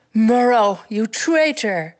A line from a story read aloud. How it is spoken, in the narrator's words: Grace growled